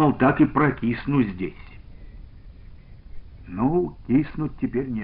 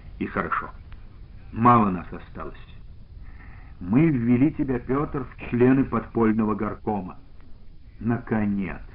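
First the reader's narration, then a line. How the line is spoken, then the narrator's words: Sighing. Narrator (Russian): вздохнул Полипов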